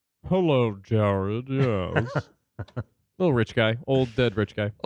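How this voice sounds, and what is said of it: Imitates another person's voice. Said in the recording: “I am going to do a voice for David Koch.”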